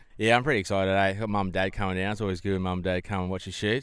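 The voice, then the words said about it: New Zealand accent. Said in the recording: “your New Zealand accent”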